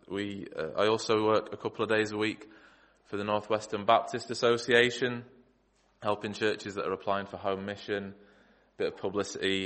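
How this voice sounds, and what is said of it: Groggy, tired-sounding voice. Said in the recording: “I sound a little groggy, but I am a bit”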